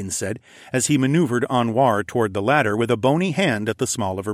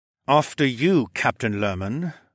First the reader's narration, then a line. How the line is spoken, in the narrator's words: the Falcon Man gritted out through his teeth